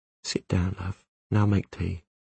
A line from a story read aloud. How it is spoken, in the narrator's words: she whispered